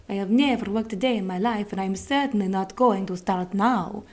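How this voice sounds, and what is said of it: Poor put-on Italian accent. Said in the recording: “That was a really, really bad Italian accent”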